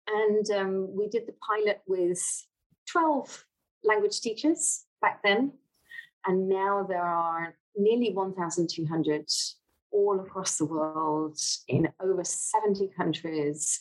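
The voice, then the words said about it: British accent. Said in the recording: “from your accent, Americans can tell that you're British”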